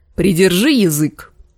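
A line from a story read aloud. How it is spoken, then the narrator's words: Barked. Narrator (Russian): рявкнул капитан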